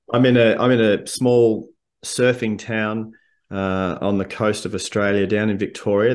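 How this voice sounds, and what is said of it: Slight Australian accent. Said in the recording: “You're going to detect a slight accent”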